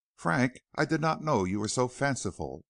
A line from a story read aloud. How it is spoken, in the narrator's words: exclaimed the other